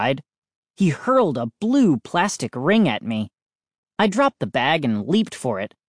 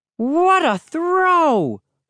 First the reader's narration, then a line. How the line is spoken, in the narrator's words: He exclaimed